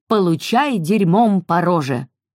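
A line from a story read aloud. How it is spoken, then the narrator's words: Grandmother shouting. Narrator (Russian): Главным образом, потому что бабушка кричала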